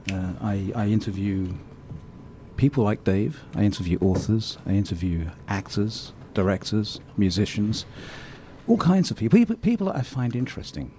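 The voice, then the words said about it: Posh English accent. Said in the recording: “Your accent is very, posh.”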